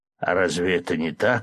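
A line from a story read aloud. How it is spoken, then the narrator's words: Snort. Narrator (Russian): хмыкнул Чингер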